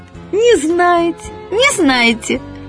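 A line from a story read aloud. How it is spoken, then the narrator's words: Joyful squeal. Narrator (Russian): Она радостно визжит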